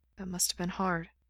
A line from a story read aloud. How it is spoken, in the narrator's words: Gerard says, his voice soft